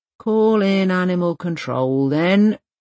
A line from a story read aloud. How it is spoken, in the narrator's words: the policewoman with green eyes saying, at last, with a disconsolate sigh